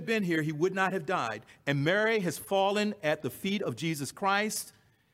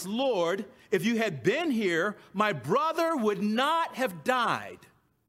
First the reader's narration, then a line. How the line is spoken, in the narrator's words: They both exclaim to Christ